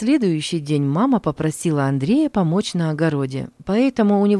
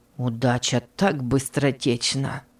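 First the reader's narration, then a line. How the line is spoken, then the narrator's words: Envious mutter through teeth. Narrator (Russian): Сквозь зубы пробормотал Петр, увидев радостного брата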